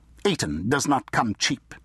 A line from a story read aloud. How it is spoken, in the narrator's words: the Baron snapped